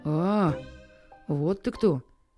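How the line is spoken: Friendly dog mutter. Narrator (Russian): приветливо буркнула собака

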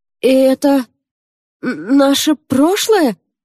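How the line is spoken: Trembling question. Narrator (Russian): дрожащим голосом спросил Йонсо

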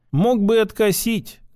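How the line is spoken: Sad. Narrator (Russian): грустно покачала головой

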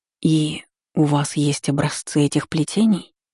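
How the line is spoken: Incredulous whisper. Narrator (Russian): прошептала, не веря в собственную удачу

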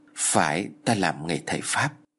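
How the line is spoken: Thoughtful reply. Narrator (Vietnamese): Bác Nam trầm ngâm rồi trả lời

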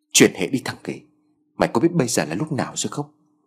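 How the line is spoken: Hushed sharp rebuke. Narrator (Vietnamese): Trung kèm theo tiếng quát khẽ

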